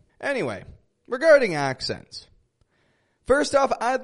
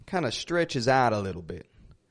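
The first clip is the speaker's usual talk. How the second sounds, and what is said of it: Put-on Southern US drawl, stretched vowels. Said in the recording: “other folk down in Mississippi, they talk a little bit like this ... Down in the southern United States. They stretch it out. They stretch out their vowels. It's kind of relaxing sounding”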